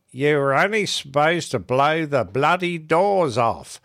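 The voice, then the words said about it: Imitates another person's voice. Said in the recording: “That's my attempt at a Michael Caine accent. ... That was better than Michael Caine did it, I think.”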